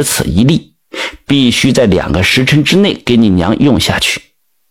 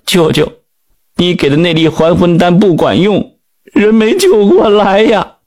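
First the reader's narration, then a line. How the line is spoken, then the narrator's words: Crying. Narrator (Chinese): 铁柱一看李云清，就哭了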